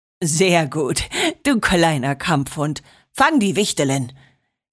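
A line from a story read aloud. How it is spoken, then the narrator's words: Laughing, amused father. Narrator (German): lachte Papa und schmunzelte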